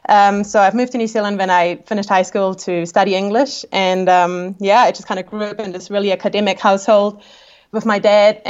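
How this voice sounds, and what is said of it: Austrian accent with New Zealand influence. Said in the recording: “I am from Austria. I've got a funny accent, which is because I live in New Zealand.”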